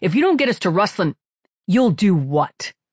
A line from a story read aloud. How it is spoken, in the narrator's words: Falcone said sharply